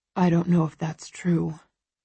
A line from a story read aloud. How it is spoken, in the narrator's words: he murmurs